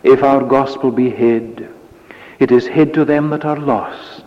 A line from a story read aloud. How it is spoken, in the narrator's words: says Paul